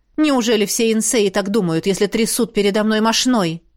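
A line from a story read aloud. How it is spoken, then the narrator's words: Through gritted teeth. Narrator (Russian): Лейр процедил сквозь зубы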